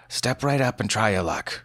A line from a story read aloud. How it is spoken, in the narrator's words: he said